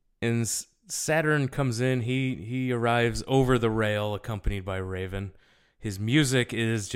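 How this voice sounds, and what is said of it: Usual voice. Nothing is said of it.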